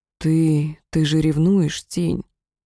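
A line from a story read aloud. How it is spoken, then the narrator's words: Quiet. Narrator (Russian): он тихо сказал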